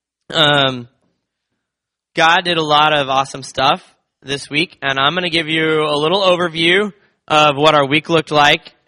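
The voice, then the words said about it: Hoarse, strained voice. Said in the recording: “I lost my voice at camp, so I actually need to use a microphone today”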